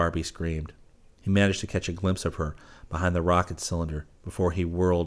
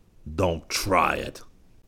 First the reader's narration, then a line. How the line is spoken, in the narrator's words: Kogan said harshly